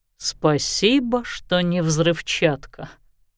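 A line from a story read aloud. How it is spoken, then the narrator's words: Muttered. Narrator (Russian): пробормотал Лещинский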